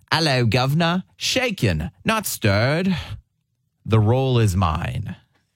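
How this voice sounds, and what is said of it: Put-on British accent. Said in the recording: “with a British accent”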